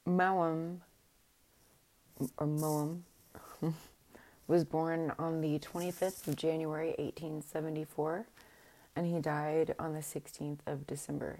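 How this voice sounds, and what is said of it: Voice worn from illness. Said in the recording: “sorry about my voice. I've been sick for a couple of weeks.”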